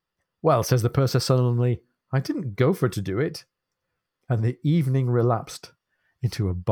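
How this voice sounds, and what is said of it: Usual voice. Nothing is said of it.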